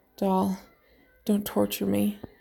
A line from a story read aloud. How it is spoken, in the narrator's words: he pleaded softly